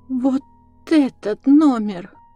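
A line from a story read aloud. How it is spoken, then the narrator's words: Old maid babbling. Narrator (Russian): пролепетала старая дева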